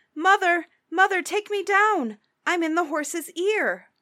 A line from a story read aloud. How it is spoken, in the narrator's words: Tom called out